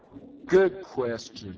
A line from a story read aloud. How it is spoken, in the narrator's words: said finally